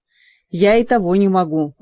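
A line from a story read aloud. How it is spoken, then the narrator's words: Glum grumble, court mage. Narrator (Russian): уныло проворчал придворный маг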